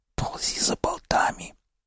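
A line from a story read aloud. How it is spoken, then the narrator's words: Quiet hiss from floor. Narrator (Russian): тихо прошипел с пола доктор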